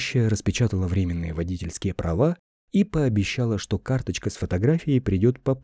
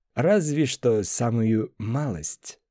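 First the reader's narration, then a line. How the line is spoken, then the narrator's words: Laughing. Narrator (Russian): засмеялся Коби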